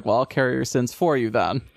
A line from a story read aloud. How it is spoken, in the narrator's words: Mikiya like kind of gives a tired chuckle and is like